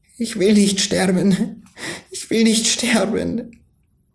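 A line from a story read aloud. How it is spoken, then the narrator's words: Pleading. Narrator (German): flehte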